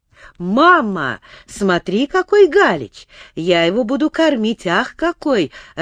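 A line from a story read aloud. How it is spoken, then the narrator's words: Joyful child. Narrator (Russian): радостно говорил юный Морозов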